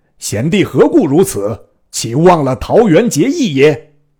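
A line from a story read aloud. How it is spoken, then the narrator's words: Alarmed cry. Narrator (Chinese): 关公大惊，便叫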